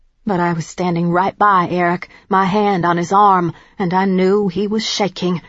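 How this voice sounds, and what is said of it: Usual voice. Nothing is said of it.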